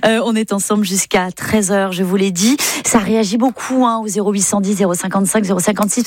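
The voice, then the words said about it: Breton-English accent in French. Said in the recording (French): “cet accent breton-anglais dont je n'arrive pas à me départir”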